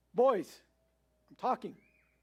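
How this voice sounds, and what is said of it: Raised, louder voice. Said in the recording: “raise my voice just a little bit higher”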